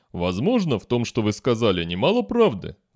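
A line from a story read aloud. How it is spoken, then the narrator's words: Sad. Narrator (Russian): грустно проговорил Шект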